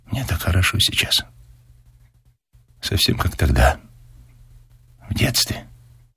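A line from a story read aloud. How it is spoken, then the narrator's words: Whispering young woman. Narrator (Russian): девушка прошептала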